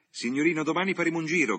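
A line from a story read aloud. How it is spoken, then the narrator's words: Coachman shouting confidently. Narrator (Italian): gridò il fiaccheraio con sua dente certezza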